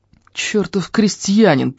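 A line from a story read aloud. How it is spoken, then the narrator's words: Through gritted teeth. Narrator (Russian): процедил Лаум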